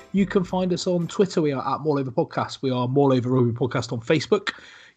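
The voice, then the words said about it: West Country English accent. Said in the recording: “with a West Country accent.”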